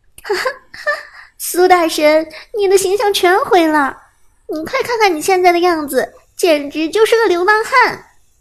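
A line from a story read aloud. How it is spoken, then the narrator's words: Laughing teasing. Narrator (Chinese): 顾以你 哈哈笑着说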